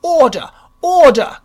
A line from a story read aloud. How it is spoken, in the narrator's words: cried the earnest contingent